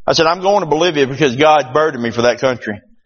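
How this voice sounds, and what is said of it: Southern American accent with twang. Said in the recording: “you hear my accent... with a twang”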